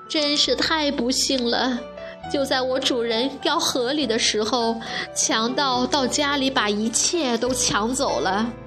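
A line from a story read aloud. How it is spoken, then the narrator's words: Crying. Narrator (Chinese): 穿靴子的猫哭着说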